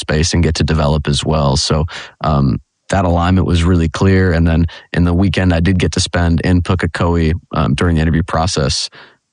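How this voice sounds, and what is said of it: Non-New Zealand accent. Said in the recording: “the accent gives it away, not from here”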